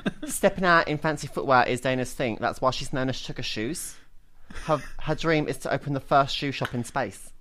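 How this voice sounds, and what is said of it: Put-on Essex girl accent. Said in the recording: “A high school girl voice. ... No. I'm doing like an Essex girl.”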